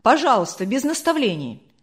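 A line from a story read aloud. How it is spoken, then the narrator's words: Angry interruption. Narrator (Russian): сердито оборвал Демьяна Лукича председатель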